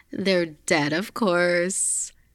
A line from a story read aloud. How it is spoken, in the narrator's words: Tony laughed